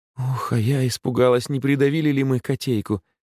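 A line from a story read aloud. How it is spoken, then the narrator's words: Relieved exhale. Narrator (Russian): с облегчением выдохнула Наталья Никифоровна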